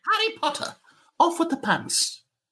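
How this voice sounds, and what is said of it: Professor McGonagall-style accent. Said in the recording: “You sound like Professor McGonagall in Harry Potter... In that accent?”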